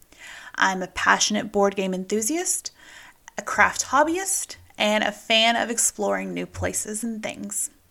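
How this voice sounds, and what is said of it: Texan American accent. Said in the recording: “As you might have noticed from my accent, I am not originally from around here... I am originally from Texas”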